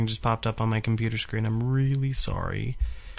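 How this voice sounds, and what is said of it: Usual voice. Nothing is said of it.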